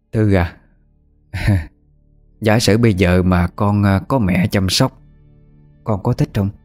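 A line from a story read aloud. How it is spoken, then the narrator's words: Sighing question. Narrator (Vietnamese): Bà Hảo thở dài, hỏi cái Thư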